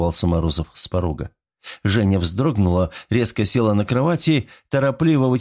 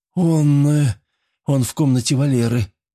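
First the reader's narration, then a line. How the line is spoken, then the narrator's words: Forced out with difficulty. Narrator (Russian): с трудом выдавила она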